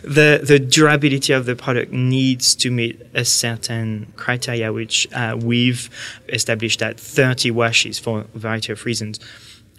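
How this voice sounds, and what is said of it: French accent. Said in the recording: “I couldn't understand you because you're okay. So French. ... At least my accent wouldn't be an issue this time.”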